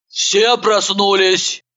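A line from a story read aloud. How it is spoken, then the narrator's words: Booming, from behind. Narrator (Russian): прогремела за нашими спинами Иванова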